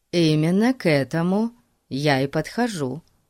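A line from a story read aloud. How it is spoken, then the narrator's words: Calm. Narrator (Russian): спокойно сказал Фати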